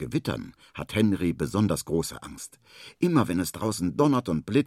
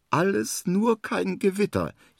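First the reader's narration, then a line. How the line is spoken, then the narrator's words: Whining. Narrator (German): jammert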